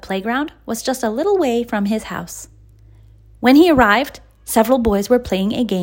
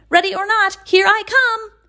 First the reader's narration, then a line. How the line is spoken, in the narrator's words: shouted Leroy